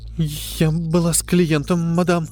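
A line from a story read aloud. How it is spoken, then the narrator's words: Frightened, trembling voice. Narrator (Russian): с неподдельным страхом, дрожащим голосом ответила Линда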